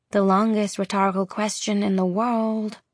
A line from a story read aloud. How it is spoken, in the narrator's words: Zelly murmurs